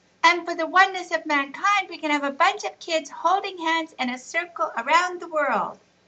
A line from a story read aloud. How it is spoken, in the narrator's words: shouted Riaz, jumping up and down